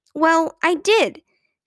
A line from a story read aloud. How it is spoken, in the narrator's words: said angrily, almost tearfully